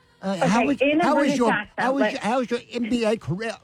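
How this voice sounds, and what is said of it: Attempted British accent. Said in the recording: “in a British accent?”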